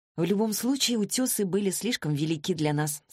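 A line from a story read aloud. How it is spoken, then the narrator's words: Plain. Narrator (Russian): сказала я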